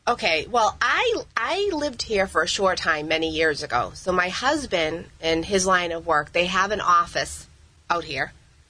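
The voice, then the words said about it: Boston accent. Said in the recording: “comes to us from Boston, and based on your accent, you've been there for a long time”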